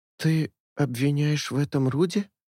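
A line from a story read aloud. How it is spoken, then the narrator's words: Muttered. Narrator (Russian): пробормотала Джиэль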